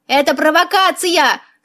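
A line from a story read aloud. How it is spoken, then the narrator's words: Yelling. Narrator (Russian): завопил Васька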